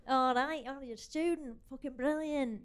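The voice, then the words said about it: Put-on Mancunian accent. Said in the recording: “the Mancunian people ... That's the accent that I used to do.”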